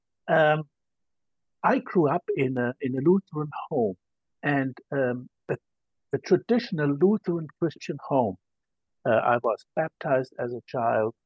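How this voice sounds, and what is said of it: German accent. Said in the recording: “as you can hear, I'm from Germany. And so I have a German accent”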